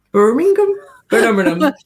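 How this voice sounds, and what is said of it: Attempted Birmingham accent. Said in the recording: “Is that your Birmingham accent? ... That's more Dudley ... I'm not great at accents.”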